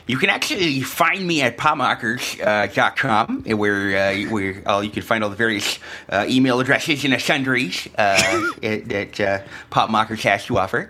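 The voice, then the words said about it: Nerdy character voice, scratchy. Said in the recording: “in the nerd voice ... the nerd voice is not done any justice ... my voice is all scratched up from a cold”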